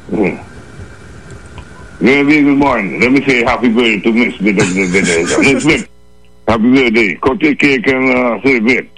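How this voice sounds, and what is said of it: Bajan (Barbadian) accent. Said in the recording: “We haven't heard the Bayesian accent in a while.”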